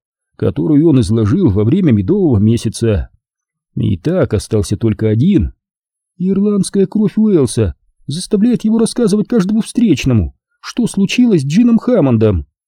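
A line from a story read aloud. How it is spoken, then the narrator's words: Calm. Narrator (Russian): спокойно подхватила она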